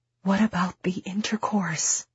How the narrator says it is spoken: She whispers

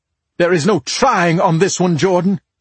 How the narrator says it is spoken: she barked

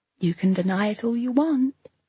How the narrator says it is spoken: she says softly

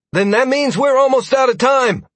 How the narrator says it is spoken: Sierra exclaimed

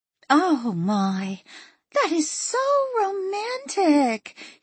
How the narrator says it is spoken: Hillary said wistfully

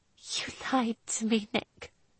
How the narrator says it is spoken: choked out

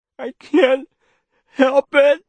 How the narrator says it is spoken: the boy said, and with terror he felt the grief swelling up, overwhelming him, driving his voice out of him in a wail

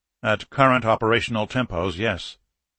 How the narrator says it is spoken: Sergeyev said grimly

